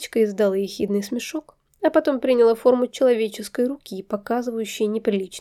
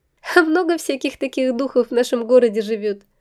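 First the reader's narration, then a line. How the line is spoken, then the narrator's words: Question after laughing. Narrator (Russian): отсмеявшись, спросила я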